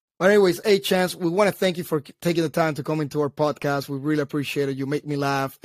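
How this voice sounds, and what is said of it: Unusual accent. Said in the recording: “I know I'm not the only one with a weird accent.”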